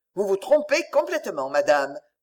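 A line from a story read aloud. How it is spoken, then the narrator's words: Absolute tone. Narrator (French): me répondit-il d'un ton absolu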